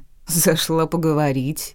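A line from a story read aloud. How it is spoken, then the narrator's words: Mocking. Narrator (Russian): насмешливо отозвался Лорн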